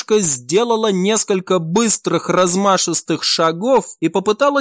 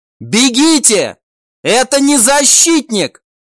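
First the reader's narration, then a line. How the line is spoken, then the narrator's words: Shout. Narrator (Russian): закричала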